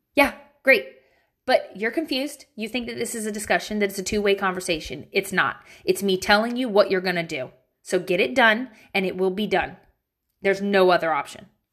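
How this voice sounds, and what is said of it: Irritated, stern mom voice. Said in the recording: “Let me give you my mom voice. I gotta channel my irritation ... That was my mom voice. I'm mad now”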